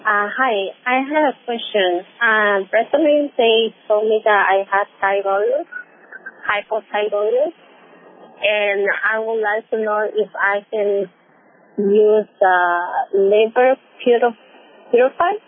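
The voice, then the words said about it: Slight accent. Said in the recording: “you have a little bit of an accent for me”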